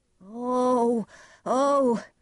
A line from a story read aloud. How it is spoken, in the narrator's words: he cried